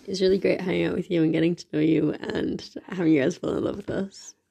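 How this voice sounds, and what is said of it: Low whispery put-on voice. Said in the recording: “Why is your fuckboy voice on? ... That's just me whispering into the thing. And I have no energy”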